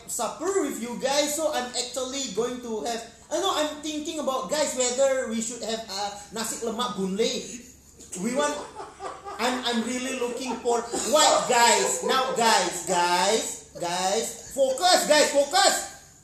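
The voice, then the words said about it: Put-on Filipino accent. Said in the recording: “in his Filipino accent.”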